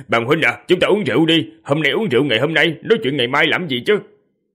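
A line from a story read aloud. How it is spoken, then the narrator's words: Loud laughter. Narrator (Vietnamese): Một người bên cạnh cười to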